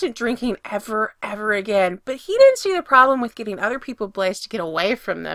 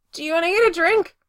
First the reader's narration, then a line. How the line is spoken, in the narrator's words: said desperately